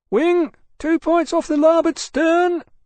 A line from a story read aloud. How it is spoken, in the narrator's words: the lookout cried